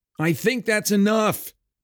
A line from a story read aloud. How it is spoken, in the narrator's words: Garin shouted over the din